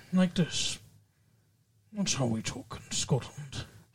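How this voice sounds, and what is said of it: Put-on Scottish accent. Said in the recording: “Scottish would be like, this is Scottish. ... You know, like Sean Connery.”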